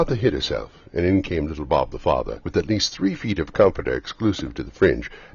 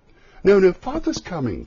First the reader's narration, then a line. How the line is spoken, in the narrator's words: cried the two young Cratchits